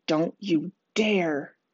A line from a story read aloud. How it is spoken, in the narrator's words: Connor hisses